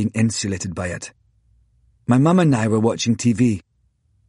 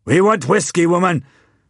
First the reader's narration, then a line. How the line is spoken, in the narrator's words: my father roared as he sped by